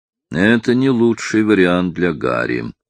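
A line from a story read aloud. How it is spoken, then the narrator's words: Sigh. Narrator (Russian): вздохнул Тремьен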